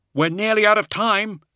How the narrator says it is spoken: he cried out

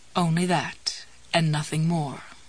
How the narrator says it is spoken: Jessie murmured

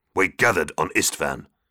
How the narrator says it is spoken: Angron grunted

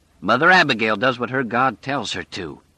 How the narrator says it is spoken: he said harshly

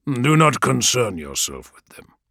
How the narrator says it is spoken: said Vulcan

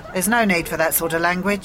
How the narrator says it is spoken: the policeman said sternly

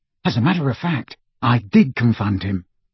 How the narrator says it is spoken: Ron whispered to Harry

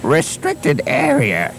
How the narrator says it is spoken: he wheezed

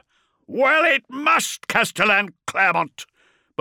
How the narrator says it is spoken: Beaumont roared back

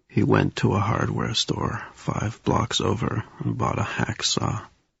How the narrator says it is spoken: Sneaker said in his toneless voice

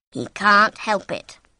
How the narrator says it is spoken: Eden said

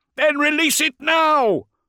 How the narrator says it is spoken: yelled the stormtrooper

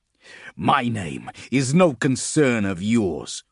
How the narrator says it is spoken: Grim spat

